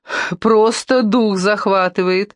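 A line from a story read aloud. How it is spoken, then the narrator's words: Laughing. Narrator (Russian): рассмеялась она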